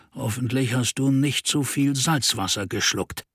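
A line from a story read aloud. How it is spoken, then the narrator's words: Murmuring. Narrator (German): murmelte Reynolds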